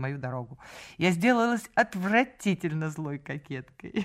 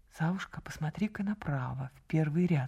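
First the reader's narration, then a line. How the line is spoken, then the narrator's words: Whisper. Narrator (Russian): шепнула она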